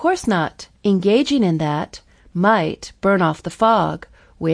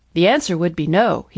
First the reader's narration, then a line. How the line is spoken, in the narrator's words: said, laughing for a moment